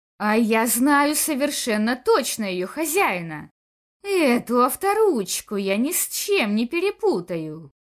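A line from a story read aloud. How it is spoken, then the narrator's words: Hissing. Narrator (Russian): прошипел комиссар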